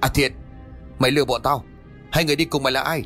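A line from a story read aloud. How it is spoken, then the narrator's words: Angry shout. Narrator (Vietnamese): A Luân liền quát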